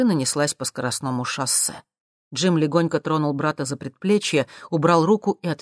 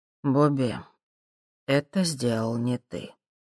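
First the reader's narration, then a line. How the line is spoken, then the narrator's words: Quiet. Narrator (Russian): тихо сказал он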